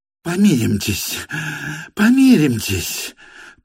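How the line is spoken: Convulsive whisper. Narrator (Russian): прошептал он ему судорожным шепотом

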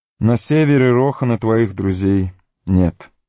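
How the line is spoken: Sighing. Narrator (Russian): вздохнул Йомер

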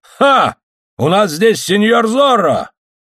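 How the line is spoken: Loud shout. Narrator (Russian): Гонзалес громко крикнул

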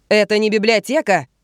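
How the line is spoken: Yelling. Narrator (Russian): вопит ей вслед Генри

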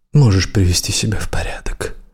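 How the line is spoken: Gentle fatherly softness. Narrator (Russian): тихо и ласково сказал он, словно отец ребенку

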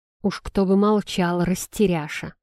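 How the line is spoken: Muttered through clenched teeth. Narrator (Russian): процедил сквозь зубы менталист

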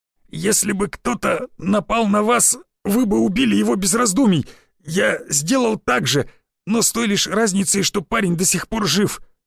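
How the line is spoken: Hoarse rasp. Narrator (Russian): прохрипел я

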